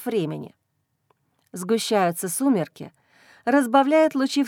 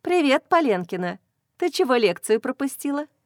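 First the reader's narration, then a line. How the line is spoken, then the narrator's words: Brisk cheerful chatter. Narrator (Russian): Бодро тараторит она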